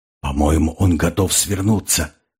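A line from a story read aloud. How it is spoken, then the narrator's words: Whisper. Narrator (Russian): шепотом сказал Тимур Алк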